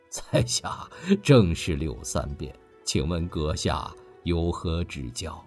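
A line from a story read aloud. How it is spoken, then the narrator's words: Laughing. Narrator (Chinese): 柳三变不由笑了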